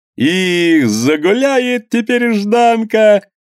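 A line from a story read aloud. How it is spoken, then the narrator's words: Cheerful shout. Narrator (Russian): весело крикнул другой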